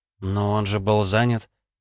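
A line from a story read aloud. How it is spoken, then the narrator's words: Timid babbling. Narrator (Russian): пролепетала Ванда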